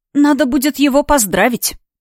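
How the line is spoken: Sigh. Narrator (Russian): вздохнула я

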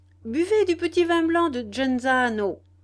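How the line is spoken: Cheerful shout. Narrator (French): leur cria Dario, redevenu très gai

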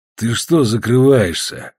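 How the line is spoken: Sad chuckle. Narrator (Russian): грустно усмехнулся Иван

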